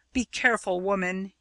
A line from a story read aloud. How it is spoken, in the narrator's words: said hotly